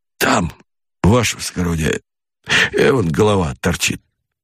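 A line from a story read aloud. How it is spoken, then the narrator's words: Low, offhand. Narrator (Russian): Сальников негромко бросил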